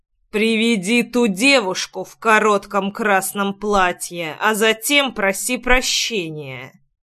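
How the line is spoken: Menacing through teeth. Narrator (Russian): Процедил я таким тоном, что человек побледнел

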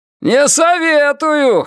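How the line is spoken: Shouted in reply. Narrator (Russian): крикнул в ответ он

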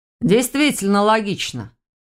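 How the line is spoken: Snorting. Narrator (Russian): хмыкнул Ваня

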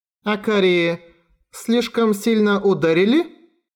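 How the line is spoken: Uncertain question. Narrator (Russian): Неуверенно спросила Чайка

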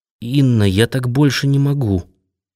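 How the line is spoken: Mumble. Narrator (Russian): промямлил Колязин

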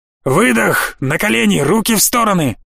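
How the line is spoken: Roaring helmet loudspeaker. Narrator (Russian): проревел динамик на шлеме одного из штурмовиков

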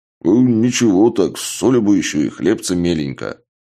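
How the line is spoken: Mumbled while chewing. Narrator (Russian): Чак, сочно жуя, прошамкал

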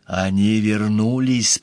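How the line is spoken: Whisper. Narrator (Russian): прошептала она

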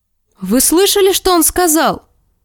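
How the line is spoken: Exclaiming. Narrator (Russian): воскликнула Серсея

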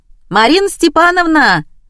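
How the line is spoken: Calling out loudly. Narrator (Russian): крикнула

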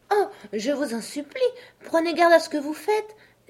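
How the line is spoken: Terrified, anxious exclamation. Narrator (French): s'écria Alice en bondissant d'inquiétude et de terreur

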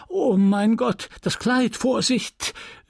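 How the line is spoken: Call. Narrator (German): rief Madame Lefrançois

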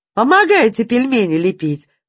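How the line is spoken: Cheerful shout. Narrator (Russian): задорно крикнула Даша

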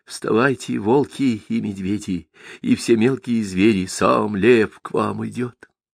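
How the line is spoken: Whispered like an incantation. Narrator (Russian): Клавдия, как заклинание, прошептал

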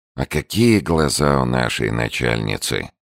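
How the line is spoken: Said with a sigh. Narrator (Russian): сказал Виттенс и вздохнул

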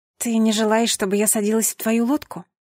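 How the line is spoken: Quiet question. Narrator (Russian): тихо спросила

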